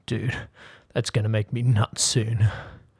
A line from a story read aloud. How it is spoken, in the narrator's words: the stranger grunted